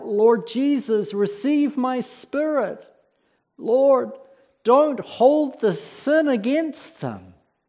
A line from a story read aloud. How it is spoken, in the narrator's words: as his life's essence was about to leave him, as he was being crushed by these rocks, he cried out